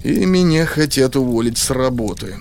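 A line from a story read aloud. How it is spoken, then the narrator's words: Sad. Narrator (Russian): грустно добавил я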